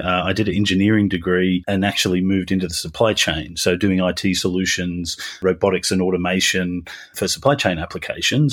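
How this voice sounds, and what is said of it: Australian accent. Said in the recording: “You can tell by my accent, I'm Australian originally”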